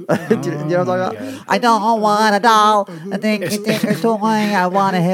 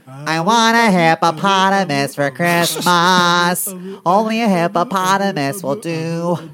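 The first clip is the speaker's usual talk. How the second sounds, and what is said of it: Sings in a goofy funny voice. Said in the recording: “it's just a funny voice. It's a goofy song.”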